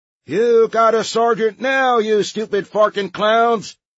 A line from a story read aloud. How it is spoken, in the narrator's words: roared the drill sergeant